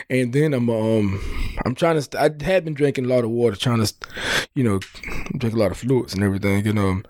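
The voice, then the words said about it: Nasal, congested voice. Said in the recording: “I'm still getting over this cold. I don't know if you can hear it in my voice... You sound nasal... I still sound sick”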